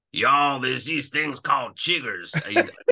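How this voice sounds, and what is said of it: Bad put-on Southern American accent. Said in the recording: “that's my terrible Southern American accent.”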